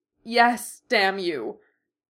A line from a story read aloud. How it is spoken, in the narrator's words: Dorian half-snarled, half-sobbed into the sheets